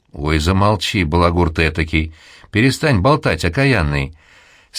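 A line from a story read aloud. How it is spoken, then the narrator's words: Embarrassed laughing women. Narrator (Russian): смеялись смущенно женщины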